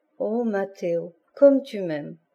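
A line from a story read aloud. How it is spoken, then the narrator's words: Murmur. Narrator (French): murmura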